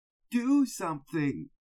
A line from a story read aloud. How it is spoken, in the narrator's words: he said desperately